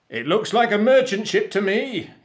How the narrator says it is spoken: he shouted

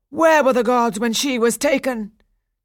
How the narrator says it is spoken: Daphnis said bitterly

